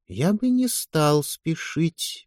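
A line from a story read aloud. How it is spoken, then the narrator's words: Soft. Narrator (Russian): мягко продолжал лорд Иден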